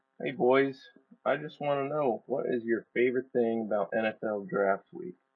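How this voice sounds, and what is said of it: Sultry, seductive voice. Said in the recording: “sexy voice”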